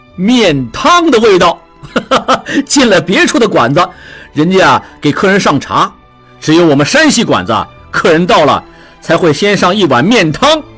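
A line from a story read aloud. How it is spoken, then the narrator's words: Laughing. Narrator (Chinese): 智庸笑道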